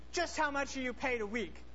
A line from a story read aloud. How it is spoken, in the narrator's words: angrily said